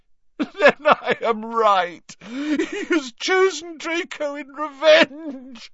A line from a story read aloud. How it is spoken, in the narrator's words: choked Narcissa